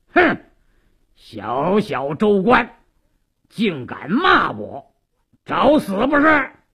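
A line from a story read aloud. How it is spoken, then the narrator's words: Stern shout. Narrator (Chinese): 鲁斋郎厉声喝道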